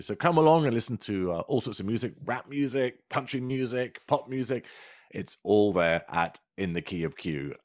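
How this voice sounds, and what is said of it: British accent. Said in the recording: “my lovely British accent”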